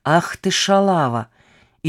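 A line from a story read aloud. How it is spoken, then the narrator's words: Hissed through gritted teeth. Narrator (Russian): Мирослава Цуганг-Степченко процедила сквозь зубы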